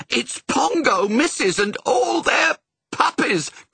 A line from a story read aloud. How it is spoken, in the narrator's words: cried the nannies